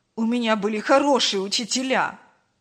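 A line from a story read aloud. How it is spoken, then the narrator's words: Snapped. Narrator (Russian): Огрызнулся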